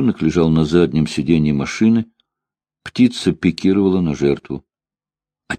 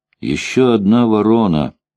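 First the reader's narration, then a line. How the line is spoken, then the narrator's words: Plain. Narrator (Russian): сказал Бобби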